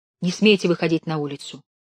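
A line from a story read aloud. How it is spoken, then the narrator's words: Stern hush. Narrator (Russian): строго цыкнула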